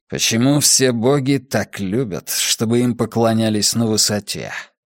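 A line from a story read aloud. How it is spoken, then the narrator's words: Grumbling. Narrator (Russian): проворчал Каз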